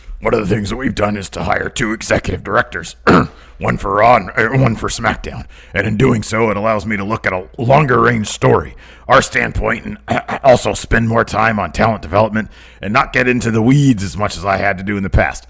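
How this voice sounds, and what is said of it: Imitates another person's voice. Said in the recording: “doing my Vince voice”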